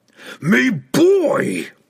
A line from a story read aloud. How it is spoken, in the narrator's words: he growled